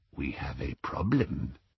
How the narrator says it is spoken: said the goblin softly

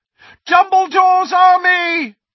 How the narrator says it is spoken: he shouted

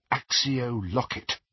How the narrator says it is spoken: murmured

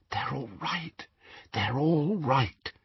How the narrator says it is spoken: she whispered

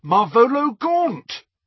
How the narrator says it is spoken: A filthy old man, and he cried aloud

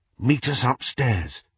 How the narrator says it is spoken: Harry whispered to Hermione

